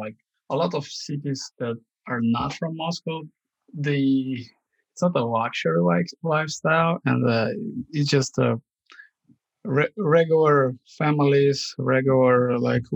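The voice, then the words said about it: Russian accent. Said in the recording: “I have a Russian accent.”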